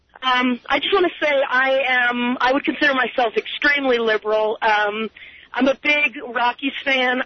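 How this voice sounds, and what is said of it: Slightly hoarse voice. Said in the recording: “My voice is a little hoarse because I was at the game last night.”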